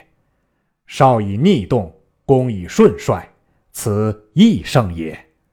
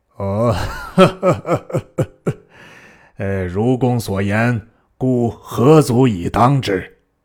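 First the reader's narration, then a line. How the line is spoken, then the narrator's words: Laughing. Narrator (Chinese): 操笑曰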